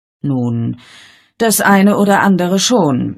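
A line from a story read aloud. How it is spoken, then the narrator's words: Sighing reply. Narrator (German): erwiderte Miss Marple mit einem Seufzer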